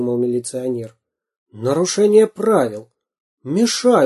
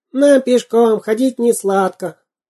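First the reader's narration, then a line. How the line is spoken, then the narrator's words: Thin singing voice. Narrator (Russian): Карандаш подпевал тоненьким голоском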